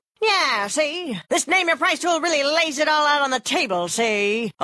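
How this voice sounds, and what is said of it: 1930s gangster voice. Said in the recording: “my impression of a 1930s gangster”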